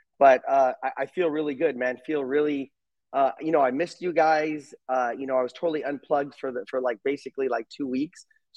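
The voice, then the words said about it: Hoarse, recovering voice. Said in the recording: “I'm still kind of recovering. I lost my voice and I got a little sick.”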